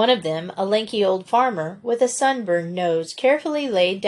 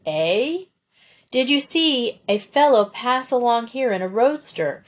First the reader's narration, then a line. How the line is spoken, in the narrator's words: Frank repeated in a louder tone